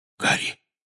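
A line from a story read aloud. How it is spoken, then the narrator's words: Whisper. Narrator (Russian): прошептал он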